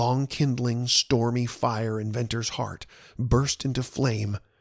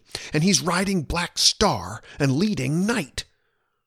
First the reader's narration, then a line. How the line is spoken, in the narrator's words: he exclaimed instantly